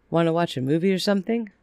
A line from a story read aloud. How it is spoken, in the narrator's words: Mike asked